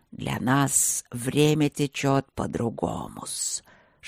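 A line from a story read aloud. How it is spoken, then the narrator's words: Serpent's hiss. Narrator (Russian): шипел змей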